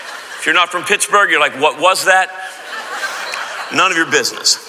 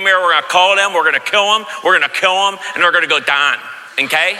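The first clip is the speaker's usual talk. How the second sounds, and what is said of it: Put-on Pittsburgh accent. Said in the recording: “let's do it like in a Pittsburgh accent”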